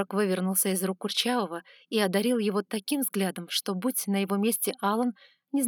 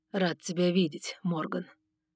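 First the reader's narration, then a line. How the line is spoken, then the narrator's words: Through gritted teeth. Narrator (Russian): процедил Сумрак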